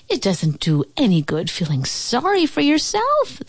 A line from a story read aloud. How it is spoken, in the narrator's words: they cried